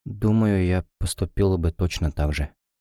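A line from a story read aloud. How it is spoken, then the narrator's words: Quiet. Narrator (Russian): тихо произнесла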